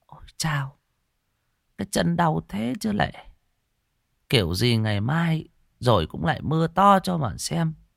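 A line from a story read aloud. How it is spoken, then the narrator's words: Old woman muttering. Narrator (Vietnamese): Bà miệng lẩm bẩm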